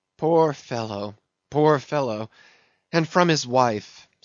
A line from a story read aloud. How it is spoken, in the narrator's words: sighed Mayhew